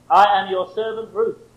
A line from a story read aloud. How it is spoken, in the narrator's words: she said